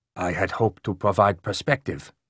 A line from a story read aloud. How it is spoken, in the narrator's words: Tom Lee replied quietly